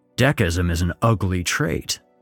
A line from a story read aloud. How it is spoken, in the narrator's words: replied